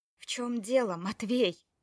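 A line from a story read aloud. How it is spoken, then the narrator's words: Furious, through gritted teeth. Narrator (Russian): процедила Таня с яростью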